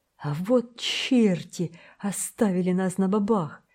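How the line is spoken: Surprised exclamation. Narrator (Russian): воскликнул боцман, с удивлением

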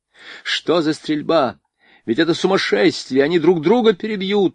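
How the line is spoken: Desperate shouting. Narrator (Russian): отчаянно кричал Жуковский

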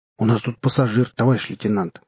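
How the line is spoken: Confused. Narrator (Russian): растерянно сказал наливайка

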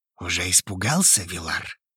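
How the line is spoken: Mocking whisper in ear. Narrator (Russian): Издевательски шепнул мне на ухо Хейвуд

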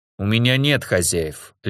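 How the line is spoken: Icy, cutting interruption. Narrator (Russian): ледяным тоном оборвал я

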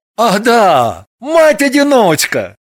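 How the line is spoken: Sour exclamation. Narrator (Russian): воскликнул он с кислой улыбкой

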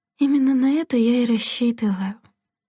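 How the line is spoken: Sighing. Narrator (Russian): вздохнула Делла

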